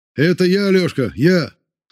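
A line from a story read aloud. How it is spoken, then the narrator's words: Shouted. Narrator (Russian): закричал Воронцов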